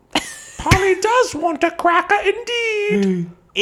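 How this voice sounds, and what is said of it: Put-on exaggerated British accent. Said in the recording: “in the accent of your owner ... Is this a Mrs. Doubtfire British?”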